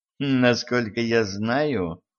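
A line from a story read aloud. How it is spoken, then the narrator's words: Snorting. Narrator (Russian): хмыкнул не клиент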